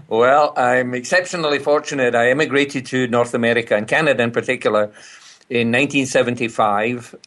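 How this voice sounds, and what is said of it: Scottish accent. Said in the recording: “somebody with a Scottish accent”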